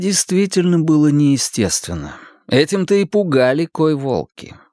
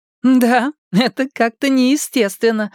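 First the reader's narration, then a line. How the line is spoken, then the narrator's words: Laughing. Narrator (Russian): рассмеялась Маля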